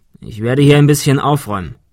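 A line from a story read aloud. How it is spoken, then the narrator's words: Plain. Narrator (German): sagte er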